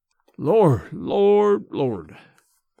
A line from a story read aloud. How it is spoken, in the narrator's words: he muttered